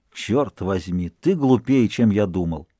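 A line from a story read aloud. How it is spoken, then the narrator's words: Irritated grumble after coughing. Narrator (Russian): в минуту сильного раздражения, после мучительного припадка кашля, он даже проворчал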